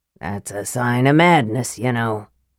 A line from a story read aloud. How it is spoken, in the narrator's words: the dwarf grumbled